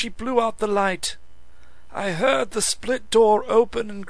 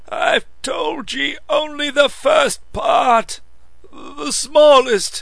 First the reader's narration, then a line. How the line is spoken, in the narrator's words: croaked the old man